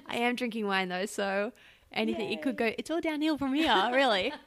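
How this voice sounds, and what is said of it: Australian accent. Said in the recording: “your adorable voice ... Oh, my accent? ... I grew up in a really small town in Brisbane, mm-hmm, Australia.”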